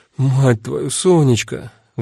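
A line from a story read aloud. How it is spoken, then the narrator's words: Sighing. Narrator (Russian): вздохнула Дита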